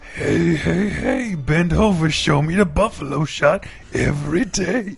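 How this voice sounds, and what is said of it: Fat Albert impression. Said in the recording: “Perv Albert. Do that impression ... like a fat Albert, but he's perfect.”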